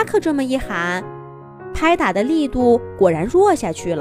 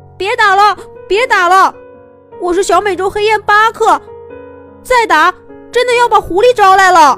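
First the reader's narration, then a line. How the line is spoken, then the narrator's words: Loud shout. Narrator (Chinese): 他高声喊着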